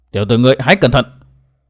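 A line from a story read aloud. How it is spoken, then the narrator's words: Stern voice. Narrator (Vietnamese): Hận Thiên nghiêm giọng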